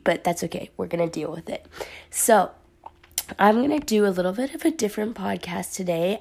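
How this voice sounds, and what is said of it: Slightly raspy voice. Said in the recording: “I have a little bit of a sore throat, and so my voice is a little raspy,”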